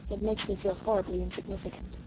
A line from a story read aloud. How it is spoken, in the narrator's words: she added under her breath